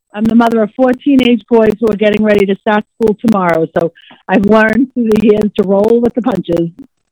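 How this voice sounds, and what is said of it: Boston accent. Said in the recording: “accent that you have is so phenomenal ... I love that Boston accent.”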